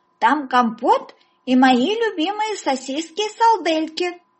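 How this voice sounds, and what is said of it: Childlike voice, shouting. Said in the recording (Russian): “крикнул человек с детским акцентом”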